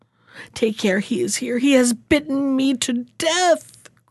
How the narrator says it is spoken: groaned Walter

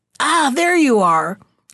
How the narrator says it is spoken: cried the Stalo

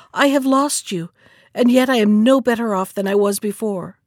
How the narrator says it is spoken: cried the princess

